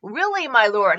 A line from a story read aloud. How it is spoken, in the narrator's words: Anzu pleaded